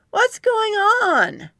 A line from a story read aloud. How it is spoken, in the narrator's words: shouted down